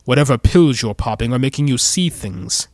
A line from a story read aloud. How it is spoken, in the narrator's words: he said with a snort